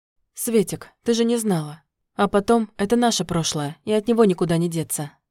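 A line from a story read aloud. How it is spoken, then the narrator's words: Calm reply. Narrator (Russian): спокойно ответил Яромир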